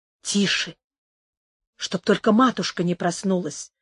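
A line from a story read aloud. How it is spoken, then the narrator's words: Whisper. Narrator (Russian): шепнула Амаранта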